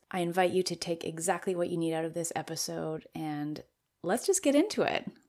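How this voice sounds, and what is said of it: Weak, tired-sounding voice. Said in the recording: “my voice is a bit weak. Recovering from COVID did take some time for my body, and you can hear that in my voice ... you can still hear some of that weakness in my voice”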